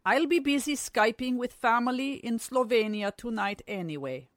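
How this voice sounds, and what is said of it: Weird Slovenian-sounding accent. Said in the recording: “That's why you have that weird accent.”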